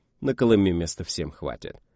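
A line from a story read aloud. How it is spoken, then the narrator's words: Even voice. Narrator (Russian): ровным голосом сказал я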